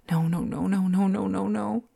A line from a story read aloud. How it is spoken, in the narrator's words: she cried over and over again